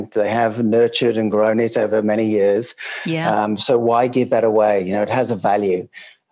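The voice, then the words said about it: English accent, not Australian. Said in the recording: “your accent's not Australian. You're originally from the UK yourself ... I'm English.”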